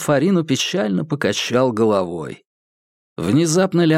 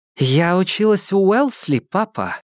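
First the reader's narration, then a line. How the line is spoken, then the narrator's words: Plain. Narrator (Russian): сказала молодая женщина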